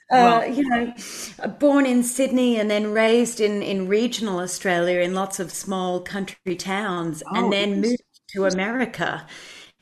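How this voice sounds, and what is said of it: Australian accent with American twang. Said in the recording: “as far as Australians go ... now I have a kind of twang in my accent from having lived in Nashville”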